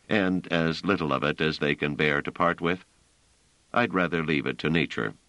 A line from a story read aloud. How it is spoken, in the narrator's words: said Trevise dryly